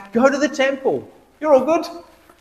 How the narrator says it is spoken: he yells back

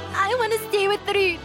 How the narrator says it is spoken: Anna blurts out, lips trembling

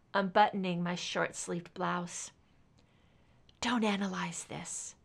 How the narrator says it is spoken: I whispered

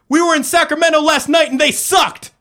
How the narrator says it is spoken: shouted

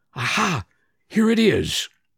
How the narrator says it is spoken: suddenly she exclaimed vivaciously

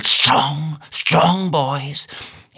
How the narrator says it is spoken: in a whisper

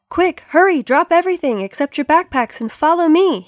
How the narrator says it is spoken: he yelled

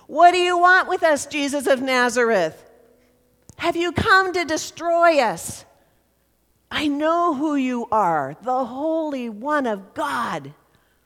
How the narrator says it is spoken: a man starts yelling

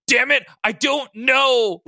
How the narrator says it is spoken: Logan cried out

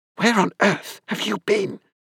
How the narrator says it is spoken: She asked me, in a hiss quiet enough not to disturb the old couple

